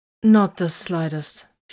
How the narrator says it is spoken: said in a stunned voice

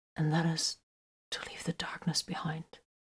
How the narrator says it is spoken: he whispered

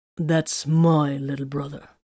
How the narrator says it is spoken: Titus stated grimly

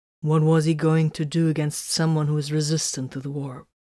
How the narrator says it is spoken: Titus asked calmly

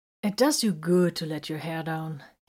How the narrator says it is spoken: said in a satisfied tone

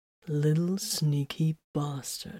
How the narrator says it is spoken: he murmured

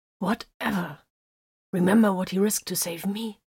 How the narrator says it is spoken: snarled

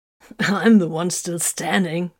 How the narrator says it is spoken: the Space Wolf chuckled

